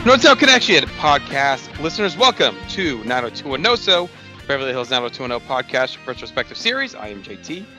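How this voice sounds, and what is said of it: Slightly gravelly, hoarse voice. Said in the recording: “my voice is taking a beating lately ... I'm a little under the weather ... Really made my voice a little gravelly”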